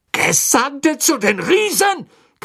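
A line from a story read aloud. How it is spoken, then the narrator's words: Shrieking. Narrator (German): kreischte Fatsch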